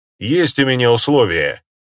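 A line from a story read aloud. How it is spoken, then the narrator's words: Loud in the silence. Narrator (Russian): громко произнес я в наступившей тишине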